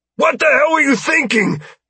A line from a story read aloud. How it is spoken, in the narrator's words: Hale shouted at Knight